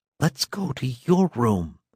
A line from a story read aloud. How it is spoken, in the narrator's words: whispered Lucien hoarsely